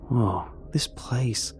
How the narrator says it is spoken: I murmur to no one

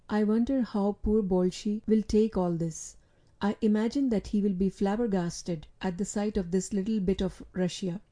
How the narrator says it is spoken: said my boy in a low voice

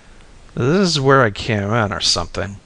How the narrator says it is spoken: I groaned

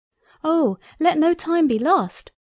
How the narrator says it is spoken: cried I

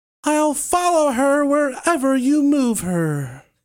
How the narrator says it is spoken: in a high-pitched voice, fairly trembling with rage, he screamed out

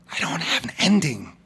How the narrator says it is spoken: whispered apologetically, keeping his voice down

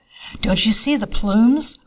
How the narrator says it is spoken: Was whispered among the crowd

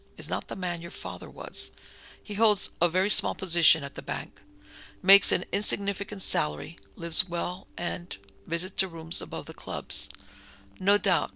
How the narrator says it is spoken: said Satan coldly

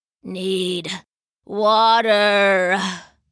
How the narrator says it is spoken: croaked, his big mouth open and panting like a sweaty dog

